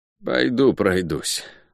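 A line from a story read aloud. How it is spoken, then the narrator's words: Grumbling guard. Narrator (Russian): буркнул стражник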